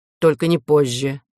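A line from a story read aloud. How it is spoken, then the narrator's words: Gloomy reply. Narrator (Russian): мрачно ответил комиссар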